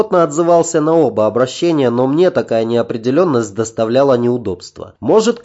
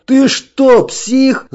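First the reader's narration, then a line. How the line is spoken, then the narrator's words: Yelling. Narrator (Russian): завопил тот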